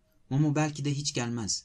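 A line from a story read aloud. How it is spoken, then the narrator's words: Plain. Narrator (Turkish): dedi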